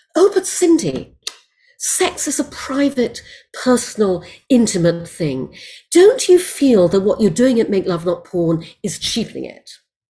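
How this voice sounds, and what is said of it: Imitated posh British woman's accent. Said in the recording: “frightfully nice woman at the BBC in a British accent”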